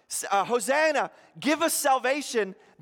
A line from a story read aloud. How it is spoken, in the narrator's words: when they're shouting out